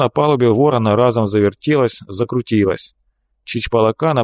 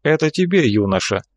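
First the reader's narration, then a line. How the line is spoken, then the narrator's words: Melancholy sigh. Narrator (Russian): лекарь тоскливо вздохнул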